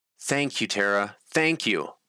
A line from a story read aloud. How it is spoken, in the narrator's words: exclaimed